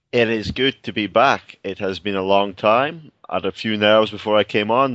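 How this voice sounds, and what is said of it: Scottish accent. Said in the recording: “He is in Scotland, and I miss that voice. I miss that accent.”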